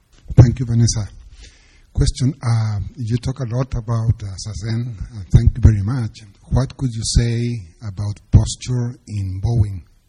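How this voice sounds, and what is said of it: Chilean Spanish accent in English. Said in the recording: “My Chilean accent.”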